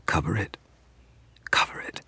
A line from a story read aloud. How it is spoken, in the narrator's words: whispered